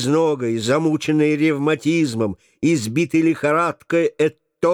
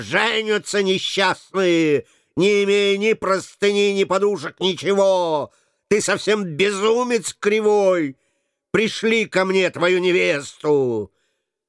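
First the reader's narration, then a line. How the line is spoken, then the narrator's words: Angry shopkeeper shouting. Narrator (Russian): сердитая Мария, лавочница, закричала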